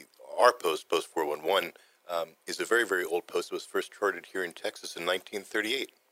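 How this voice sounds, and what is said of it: Rough, sick-sounding voice. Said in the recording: “my voice sounds horrible today. Excuse me, I'm coming down with something. ... it does sound good for the radio”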